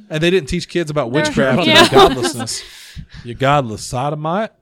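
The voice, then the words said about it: Put-on hick accent. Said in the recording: “Was that like your hick accent? ... The intolerant chicken from Conan O'Brien.”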